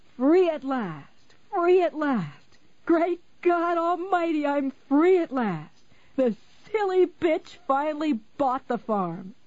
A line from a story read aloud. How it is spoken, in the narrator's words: capering about the room, the same room in the Boulderado Hotel, and screaming